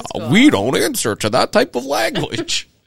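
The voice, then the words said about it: Impression of an AIM chatbot. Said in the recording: “that's my impression of the friend. AI bot.”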